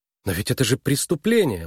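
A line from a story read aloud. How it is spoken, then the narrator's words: Exclaimed. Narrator (Russian): воскликнула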